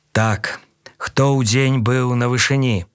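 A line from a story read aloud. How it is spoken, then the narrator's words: Dry, aggrieved commander's tone. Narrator (Belarusian): Суха пытаецца ён тонам камандзіра, які атрымаў несправядлівы наганяе ад начальства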